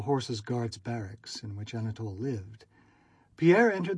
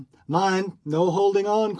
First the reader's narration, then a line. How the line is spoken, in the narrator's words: cried another